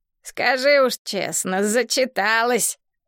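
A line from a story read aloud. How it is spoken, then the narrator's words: Snort. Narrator (Russian): фыркнул он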